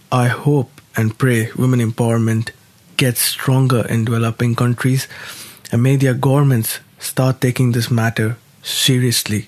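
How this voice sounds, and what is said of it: Flat, lifeless, unwell-sounding voice. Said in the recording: “I've been feeling unwell, which is why my voice sounds kind of dead today”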